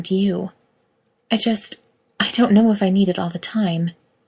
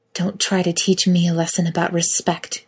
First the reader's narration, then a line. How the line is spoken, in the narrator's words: Kate hisses, her face changing in a matter of seconds from gentle but frustrated to pure anger